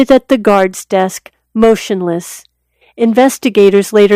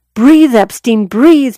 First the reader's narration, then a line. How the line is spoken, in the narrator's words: Noelle recalled him shouting